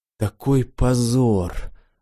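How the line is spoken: Suddenly firm, solemn declaration. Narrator (Russian): вдруг окрепшим голосом торжественно заявил

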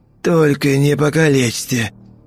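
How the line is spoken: Wheezing through wounded throat. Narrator (Russian): хрипел охранник, зажимая истекающее гноем горло

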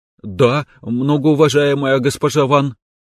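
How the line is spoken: Frightened tone. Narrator (Russian): испуганным тоном ответила Катя

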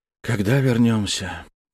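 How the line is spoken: Sighing repetition. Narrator (Russian): вздохнув, повторил Жюэль

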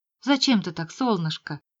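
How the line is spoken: Sad question. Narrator (Russian): спросил он грустно

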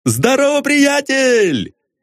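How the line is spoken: Shout. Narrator (Russian): крикнул Остап

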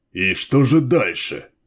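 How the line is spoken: Cold, through teeth. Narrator (Russian): процедил Баллард

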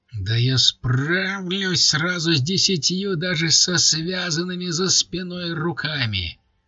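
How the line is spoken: Shrieking. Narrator (Russian): Последние слова рыжего были сплошным визгом

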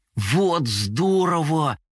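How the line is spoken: Delighted exclamation. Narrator (Russian): восхитился Компот

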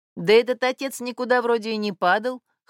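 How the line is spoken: Snorting. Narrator (Russian): хмыкнул Синяев

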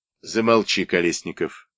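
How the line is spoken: Calm, captain. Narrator (Russian): спокойно сказал капитан

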